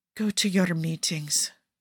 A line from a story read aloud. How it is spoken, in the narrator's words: Cesare whispers